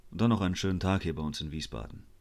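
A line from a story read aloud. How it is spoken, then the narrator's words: Toneless farewell. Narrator (German): verabschiedete sich tonlos mit den Worten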